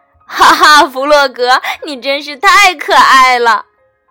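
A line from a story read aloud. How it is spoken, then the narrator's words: Loud laughter. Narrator (Chinese): 老鼠大笑了起来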